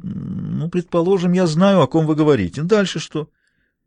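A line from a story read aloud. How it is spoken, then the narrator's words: Reluctant, forced out. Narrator (Russian): нехотя выдавил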